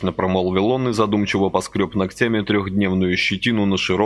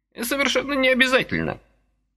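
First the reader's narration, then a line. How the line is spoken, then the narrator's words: Cheerful old man objecting. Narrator (Russian): бодро возразил заморивший червячка дедок Сократыч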